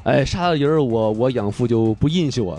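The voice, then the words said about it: Put-on Northeastern Chinese accent. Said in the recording (Chinese): “这东北口音”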